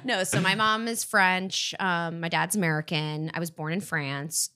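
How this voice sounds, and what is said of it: American accent. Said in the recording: “you can't tell by my super American accent. I've definitely been Americanized.”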